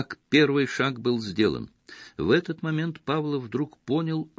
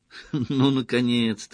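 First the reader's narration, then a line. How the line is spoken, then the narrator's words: Laughing. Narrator (Russian): рассмеялась она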